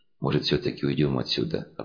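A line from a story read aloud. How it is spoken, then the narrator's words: Timid young man's suggestion. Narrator (Russian): робко предложил парень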